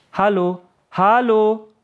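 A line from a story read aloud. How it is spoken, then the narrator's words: Calling after someone. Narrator (German): rief Yahya einer Kameradin nach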